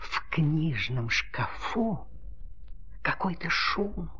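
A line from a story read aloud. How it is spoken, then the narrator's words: Whispered. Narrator (Russian): прошептала ручка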